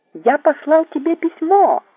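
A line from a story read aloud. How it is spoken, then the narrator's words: Shouting into ear. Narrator (Russian): закричал Кригер мне в самое ухо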